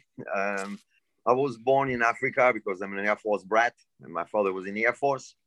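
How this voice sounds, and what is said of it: Foreign accent. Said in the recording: “I don't know if you can tell by my accent, but I wasn't born in this country.”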